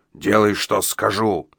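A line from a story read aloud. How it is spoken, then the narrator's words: Growled. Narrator (Russian): прорычал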